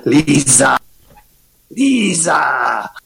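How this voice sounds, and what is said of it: Poor shouted imitation of another's voice. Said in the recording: “I can do an imitation of Green Acres ... He always was yelling ... That was a terrible impression.”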